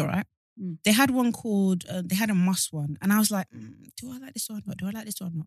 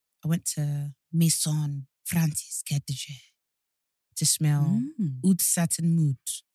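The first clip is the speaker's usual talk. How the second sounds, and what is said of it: Good put-on French accent. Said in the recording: “Your French accent is really good”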